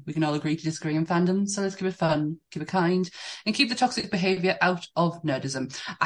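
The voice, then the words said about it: Increasingly posh accent. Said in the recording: “I heard the poshness getting more and more as I went on.”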